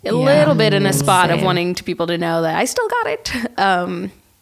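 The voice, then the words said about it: Silly put-on voice. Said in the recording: “Sorry for the voice. Sorry for the silly voice.”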